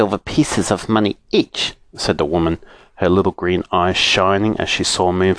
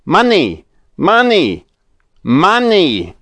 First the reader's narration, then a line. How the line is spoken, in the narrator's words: shouted Moonface